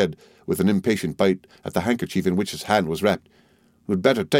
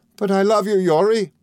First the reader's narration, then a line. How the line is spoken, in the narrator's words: cried Mrs